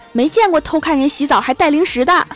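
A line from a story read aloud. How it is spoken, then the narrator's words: Woman shouting angrily. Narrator (Chinese): 一个围着浴巾的妹子，还一边喊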